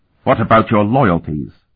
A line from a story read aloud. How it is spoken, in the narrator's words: Patriarch Ortsel asked sternly